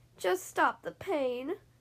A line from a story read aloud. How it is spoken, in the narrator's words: whimpered the fox, wiping some tears away